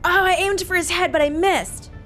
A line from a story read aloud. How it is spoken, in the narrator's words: shout